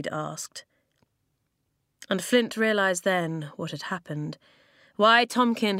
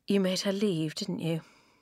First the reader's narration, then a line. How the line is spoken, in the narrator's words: he said quietly